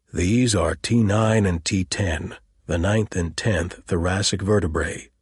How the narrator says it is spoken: said slowly

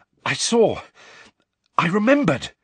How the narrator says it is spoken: Harry panted

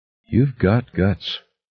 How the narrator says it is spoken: Holloway said slowly

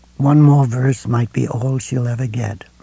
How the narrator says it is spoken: Ralph said quietly

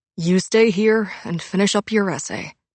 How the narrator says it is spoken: he'd said

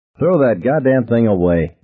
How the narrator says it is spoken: Billy Sawyer said irritably

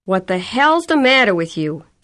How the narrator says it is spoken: him yelling at her

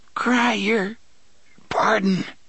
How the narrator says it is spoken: the man gasped

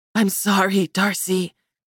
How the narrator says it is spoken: she said in a raspy tone

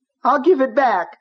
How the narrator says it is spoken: he heard himself screaming

